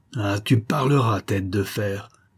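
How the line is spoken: Angry growl. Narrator (French): gronda-t-il

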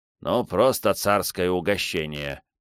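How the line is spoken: Grumbling. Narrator (Russian): проворчал Антонио

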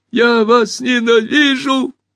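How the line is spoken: High squeaky voice. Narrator (Russian): запищал мяч

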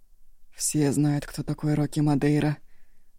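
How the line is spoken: Hoarse reply. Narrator (Russian): хрипло отозвался Шанго

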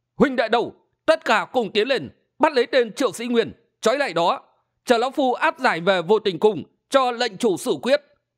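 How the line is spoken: Old man shouting. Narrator (Vietnamese): Lão hét lớn

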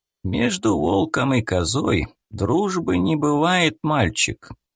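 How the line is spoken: Slow rasp. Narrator (Russian): Медленно прохрипел он

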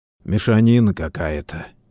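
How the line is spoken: Quiet speech. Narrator (Russian): тихо произнес Всеволод

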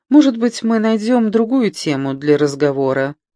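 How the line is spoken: Sweet angelic suggestion. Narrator (Russian): ангельским голоском предложила Элизабет

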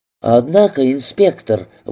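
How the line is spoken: Exclaimed. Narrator (Russian): воскликнула

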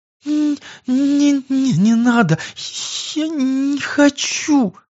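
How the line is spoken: Pained moan. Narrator (Russian): Превозмогая страдания, простонала девушка

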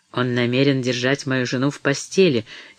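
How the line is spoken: Angry muttering. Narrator (Russian): сердито бормотал он

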